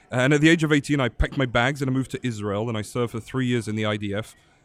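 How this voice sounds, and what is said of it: London English accent. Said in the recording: “I'd grown up in London, England, as you can probably tell from my interesting ... accent. From your lovely accent ... It's definitely not Southern”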